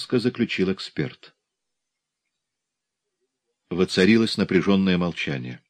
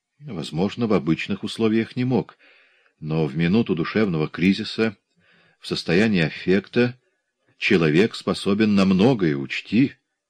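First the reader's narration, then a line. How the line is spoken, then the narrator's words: Calm objection. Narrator (Russian): спокойно возразил врач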